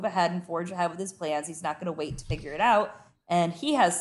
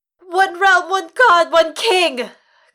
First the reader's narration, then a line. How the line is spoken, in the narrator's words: cried Lady Melisandre